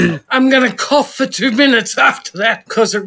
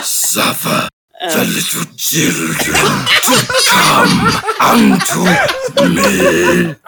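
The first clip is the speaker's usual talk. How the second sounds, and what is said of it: Raspy evil villain voice. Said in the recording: “I love your evil voice that you do ... you remember Dr. Claw from Inspector Gadget? I used to do Bible readings with that voice ... it really hurts my throat”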